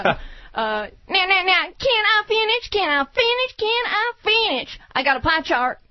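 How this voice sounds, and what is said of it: Ross Perot impression. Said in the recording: “her one impression. Did you bring a chart to do your Ross Perot impression?”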